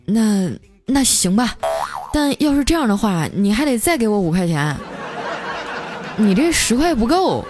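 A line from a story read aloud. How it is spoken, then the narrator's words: Reluctant, gritting teeth. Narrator (Chinese): 就咬咬牙说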